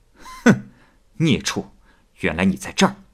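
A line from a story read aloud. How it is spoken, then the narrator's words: Laughing. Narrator (Chinese): 刘海石笑着说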